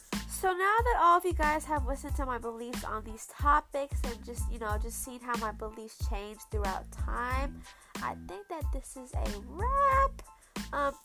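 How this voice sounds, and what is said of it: Congested, stuffy voice. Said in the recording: “my voice is a little annoying because of all the congestion going on because of the smoke and the fires”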